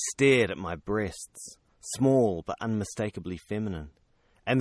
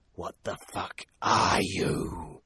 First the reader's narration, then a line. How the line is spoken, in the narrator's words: she hissed